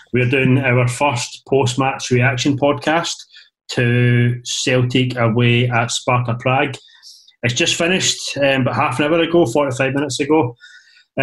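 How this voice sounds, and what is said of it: Downbeat, subdued voice. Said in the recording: “You can hear in my voice that it's not a happy special. It's a very, very downbeat special.”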